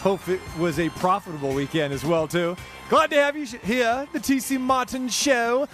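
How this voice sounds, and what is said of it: Bad put-on British accent. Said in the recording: “Why am I doing the British accent? ... You're not a limey. ... it was bad”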